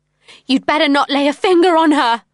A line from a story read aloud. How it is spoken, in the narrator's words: I yelled